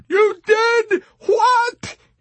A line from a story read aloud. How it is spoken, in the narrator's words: almost in tears